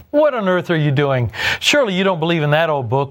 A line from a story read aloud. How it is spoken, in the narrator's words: one of them jeered